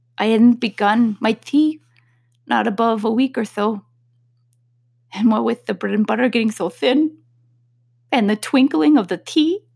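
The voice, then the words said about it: Trembling, nervous character voice. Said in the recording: “the Hatter began in a trembling voice.”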